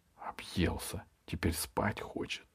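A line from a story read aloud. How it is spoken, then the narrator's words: Whispered. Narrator (Russian): шепнула Изабелла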